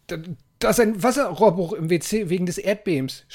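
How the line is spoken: Shouting. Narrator (German): schrie Tobias ihn an

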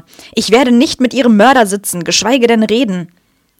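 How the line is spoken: Angry shout. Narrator (German): rief er sauer

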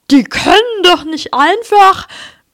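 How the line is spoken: Panting. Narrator (German): keuchte Vernon

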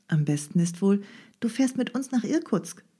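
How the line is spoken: Calm. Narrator (German): meinte Nadja ruhig

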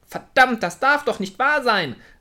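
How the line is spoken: Angry shout. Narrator (German): rief wütend

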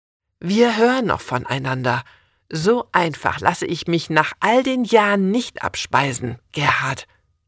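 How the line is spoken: Hissed. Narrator (German): zischt

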